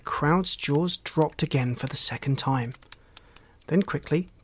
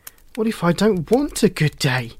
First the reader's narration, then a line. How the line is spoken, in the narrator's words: exclaimed Shelley